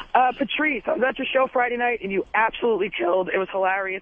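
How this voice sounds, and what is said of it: Hoarse, fading voice. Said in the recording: “Sorry, I'm losing my voice a little bit.”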